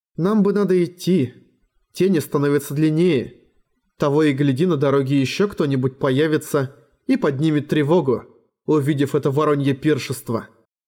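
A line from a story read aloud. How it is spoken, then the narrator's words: Sighing. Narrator (Russian): Арья вздохнула и сказала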